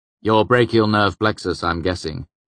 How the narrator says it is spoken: Quoth said dryly

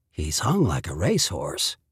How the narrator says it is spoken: he whispered

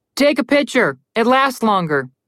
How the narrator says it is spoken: Connor shouted at them

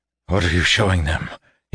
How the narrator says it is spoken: he gasped

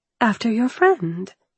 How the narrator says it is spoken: I said, gently, hoping to please him

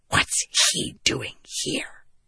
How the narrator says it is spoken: Shallan hissed

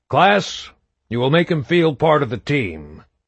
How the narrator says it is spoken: he said stiffly in his major's voice

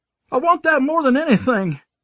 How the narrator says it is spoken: I yelled, struggling to keep it together

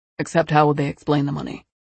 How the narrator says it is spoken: David said softly

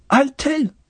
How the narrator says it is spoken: sharply, and gasped

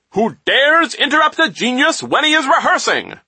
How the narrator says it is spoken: he asked, in a voice so loud and booming that it was enough to make anyone shy all over again

